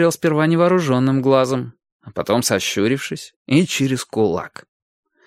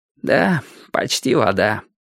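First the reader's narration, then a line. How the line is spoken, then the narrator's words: Sad. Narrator (Russian): грустно отвечал Петька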